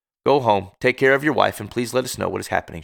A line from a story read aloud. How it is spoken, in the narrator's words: said